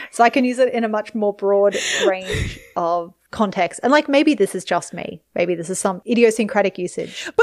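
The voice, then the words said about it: Non-rhotic accent. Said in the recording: “my non-rhotic accent”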